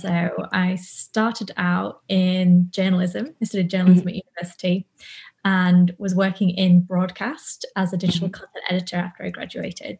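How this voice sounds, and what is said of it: British accent. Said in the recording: “I don't know if you can tell by the accent, but I am from the UK.”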